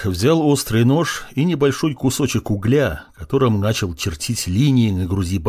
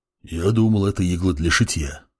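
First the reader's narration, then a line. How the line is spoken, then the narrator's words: Whispered. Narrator (Russian): шепнул Буран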